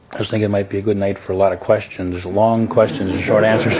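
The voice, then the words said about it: Hoarse voice from laryngitis. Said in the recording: “I'm not in my best voice tonight. Obviously, I have laryngitis... I just sound bad.”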